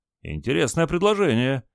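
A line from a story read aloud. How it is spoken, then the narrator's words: Exclaim after hesitation. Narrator (Russian): после небольшой заминки воскликнул инструктор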